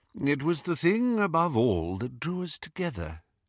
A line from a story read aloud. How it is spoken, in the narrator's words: he said quietly